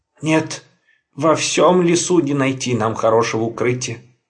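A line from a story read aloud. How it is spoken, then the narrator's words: Sighing. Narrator (Russian): вздохнул он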